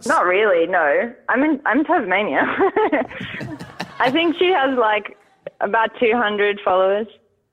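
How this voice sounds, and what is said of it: Mild Australian accent. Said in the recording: “Americans love an Australian accent ... I don't like the Australian accent. I think it's quite grating.”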